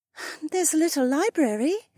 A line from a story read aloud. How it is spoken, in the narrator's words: Becca sighed